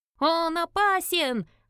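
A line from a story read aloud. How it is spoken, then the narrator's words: Chorus of shouting. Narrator (Russian): орали в один голос альвы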